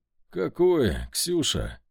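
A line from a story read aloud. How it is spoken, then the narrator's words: Tired question. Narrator (Russian): устало спросил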